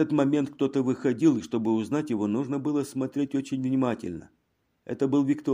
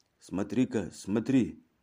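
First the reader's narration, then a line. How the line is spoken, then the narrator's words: Quiet. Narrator (Russian): тихо проговорил комиссар Дельвинь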